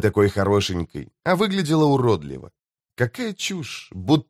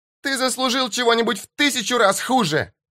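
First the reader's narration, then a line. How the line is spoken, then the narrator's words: Shouting. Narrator (Russian): закричала Мишель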